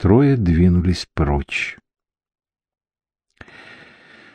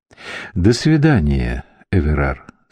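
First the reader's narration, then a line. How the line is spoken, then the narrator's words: Plain. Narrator (Russian): сказал Тесхамен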